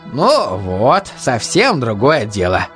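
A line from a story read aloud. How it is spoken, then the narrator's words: Pleased voice. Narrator (Russian): довольным голосом сказал Инетович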